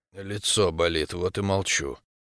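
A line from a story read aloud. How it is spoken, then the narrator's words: Grumbled. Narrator (Russian): буркнул я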